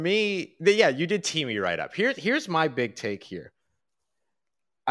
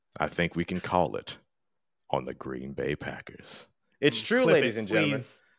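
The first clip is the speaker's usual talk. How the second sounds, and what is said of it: Put-on late-night radio DJ voice. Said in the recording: “I'll use my late night radio voice, which I like to which I love to call Midnight Jambalaya. By the way, that's my late night radio voice.”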